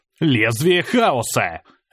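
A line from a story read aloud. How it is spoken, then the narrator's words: Barked. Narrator (Russian): рявкнул я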